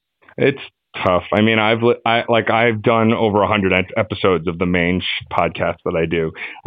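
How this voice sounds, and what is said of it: Smooth radio-style voice. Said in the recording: “you got a great voice, man. Well, you got a great radio voice.”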